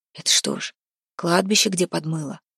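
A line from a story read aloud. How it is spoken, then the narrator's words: Whisper from behind. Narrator (Russian): прошептал у него за спиной Храпун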